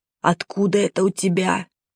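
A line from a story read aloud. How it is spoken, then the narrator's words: Whispered question. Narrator (Russian): шепотом спросил Миша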